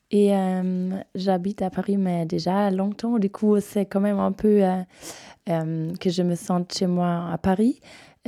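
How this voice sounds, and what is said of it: Bavarian German accent in French. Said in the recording (French): “Avec votre accent... Je suis bavaroise de Munich.”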